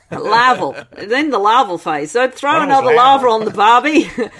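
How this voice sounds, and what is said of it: Put-on Australian accent. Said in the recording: “Which would sound great in Australian accent, actually, larval.”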